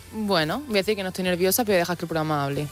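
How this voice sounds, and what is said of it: Andalusian Almería Spanish accent. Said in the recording (Spanish): “te ha salido tu acento de Almería”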